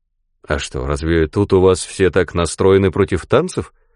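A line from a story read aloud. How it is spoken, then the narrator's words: Plain. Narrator (Russian): спросил Клайд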